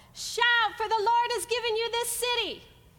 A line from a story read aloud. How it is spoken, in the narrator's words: Joshua yelled